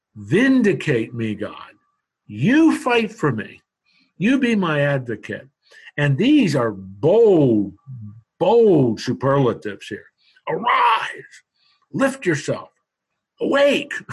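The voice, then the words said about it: Raised, loud preaching voice. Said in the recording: “I'm preaching there. I'm really raising my voice”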